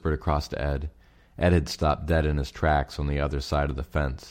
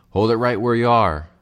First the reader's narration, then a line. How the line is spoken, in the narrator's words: Fred Wishingham's voice shouted